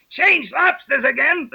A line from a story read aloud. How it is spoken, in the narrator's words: the Gryphon yelled at the top of his voice